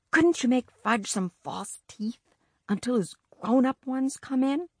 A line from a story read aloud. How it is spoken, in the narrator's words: I whispered